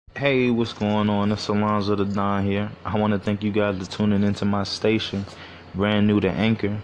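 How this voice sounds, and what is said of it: Slurring words. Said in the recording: “I just smoked if I'm slurring my words.”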